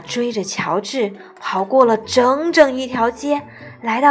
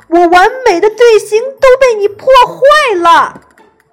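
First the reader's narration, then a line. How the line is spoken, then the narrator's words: Shouting. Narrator (Chinese): 乐队指挥喊道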